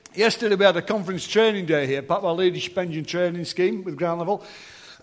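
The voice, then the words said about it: Hoarse, strained voice. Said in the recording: “I've lost my voice. I was singing superheroes and enjoying myself earlier.”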